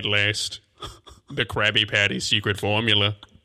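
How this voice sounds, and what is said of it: Plankton character voice. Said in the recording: “I could do Plankton.”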